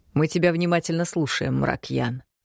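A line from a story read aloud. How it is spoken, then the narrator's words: Dry. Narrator (Russian): сухо произнес он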